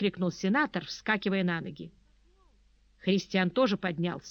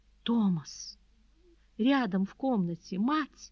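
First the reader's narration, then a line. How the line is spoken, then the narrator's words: Pleading whisper. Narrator (Russian): умоляющим голосом прошептала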